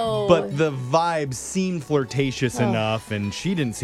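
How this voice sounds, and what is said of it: Usual voice. Nothing is said of it.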